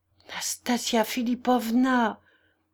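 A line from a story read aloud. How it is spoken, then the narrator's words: Trembling, careful voice. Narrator (French): articula d'une voix tremblante Afanas Ivanovitch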